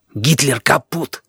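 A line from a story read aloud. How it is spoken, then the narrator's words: Whisper. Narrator (Russian): шепнул я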